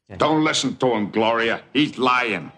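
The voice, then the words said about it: Patrick Stewart's mobster New York accent. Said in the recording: “Patrick Stewart trying to do a mobster kind of New York accent ... It's terrible ... That's spot on”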